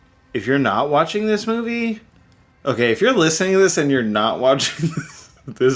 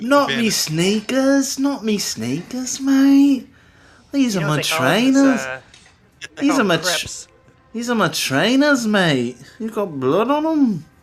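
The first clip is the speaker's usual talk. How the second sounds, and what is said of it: Put-on accent. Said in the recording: “I couldn't do the accent”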